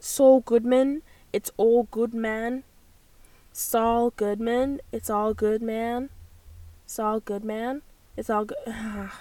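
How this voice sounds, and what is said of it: Put-on American accent, poorly done. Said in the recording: “in the American accent ... Not me butchering in another accent ... doing the American one”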